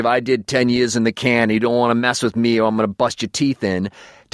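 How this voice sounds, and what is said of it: Fair put-on Boston accent. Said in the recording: “That's a pretty fair Boston accent.”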